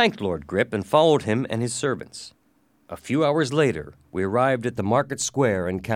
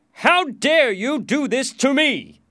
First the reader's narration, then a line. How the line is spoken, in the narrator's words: shouted